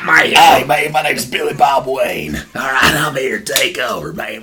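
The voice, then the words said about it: Raspy southern redneck Batman voice. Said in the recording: “raspy voice... Sounded like some guy's been smoking 16 packs of cigarettes every day... With a southern accent... The redneck”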